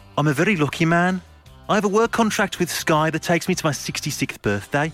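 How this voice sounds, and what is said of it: Put-on Birmingham accent. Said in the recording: “my accent ... get into the Birmingham accent character”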